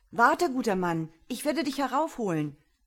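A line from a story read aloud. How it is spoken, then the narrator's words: Calling out. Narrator (German): rief Baschir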